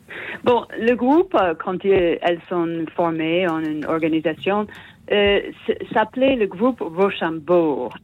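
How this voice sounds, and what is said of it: Speaks French with a foreign accent. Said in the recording (French): “c'est un délicieux accent que nous avons ce matin”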